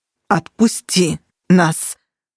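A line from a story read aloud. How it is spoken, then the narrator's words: Strangled growling demand. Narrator (Russian): задушенным рычанием потребовал ближайший к Минчересу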